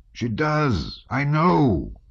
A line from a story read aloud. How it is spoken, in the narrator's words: Pierre cried fiercely